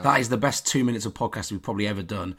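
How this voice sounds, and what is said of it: Croaky, hoarse voice. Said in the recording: “I'm still croaky. ... you're who's the one ill on this podcast?”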